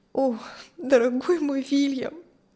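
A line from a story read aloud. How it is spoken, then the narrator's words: Tearful speech. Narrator (Russian): Сквозь слезы говорила Кристи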